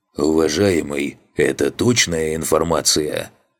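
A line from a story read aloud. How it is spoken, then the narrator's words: Hoarse voice. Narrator (Russian): Сиплым голосом обратился ко мне до этого молчавший демон в черной рубахе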